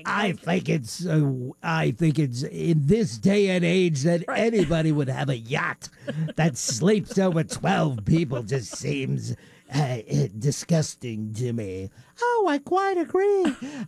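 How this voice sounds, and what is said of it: Tony Curtis impression, odd put-on accent. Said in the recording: “the voice that he puts on for this is so weird. Bonkers... where's this accent from?... Tony Curtis's accent... it's an accent that nobody else in the world has”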